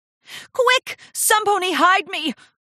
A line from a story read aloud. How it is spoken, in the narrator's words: Rarity shrieked